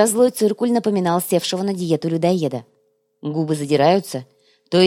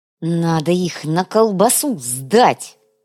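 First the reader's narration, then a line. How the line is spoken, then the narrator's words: Vengeful hiss. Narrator (Russian): мстительно прошипел Цукрам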